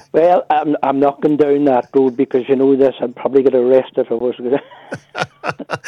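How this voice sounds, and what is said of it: Rich Fermanagh Northern Irish accent. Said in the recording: “I love the richness of your accent, I do. Especially when you're getting a wee bit annoyed there, more Fermanagh comes out in it.”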